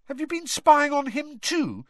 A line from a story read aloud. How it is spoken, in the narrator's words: said Harry indignantly